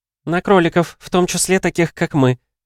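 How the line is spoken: Giggling. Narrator (Russian): хихикнула Лера

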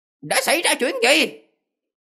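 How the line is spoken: Shouted question. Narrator (Vietnamese): quát hỏi

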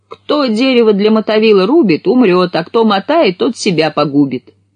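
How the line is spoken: Shout from afar. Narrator (Russian): И как крикнет оттуда

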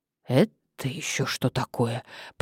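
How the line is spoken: Muttered. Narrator (Russian): пробормотала Мария

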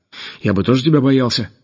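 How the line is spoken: Grumble. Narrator (Russian): пробурчал Деменко

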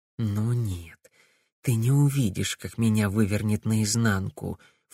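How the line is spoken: Low mutter. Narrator (Russian): вполголоса пробормотала она

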